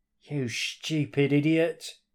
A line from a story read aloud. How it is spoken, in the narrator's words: he growled